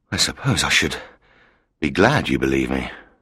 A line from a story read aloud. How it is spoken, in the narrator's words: he said quietly